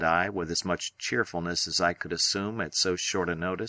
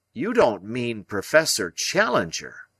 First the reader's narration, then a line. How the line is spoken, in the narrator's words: I cried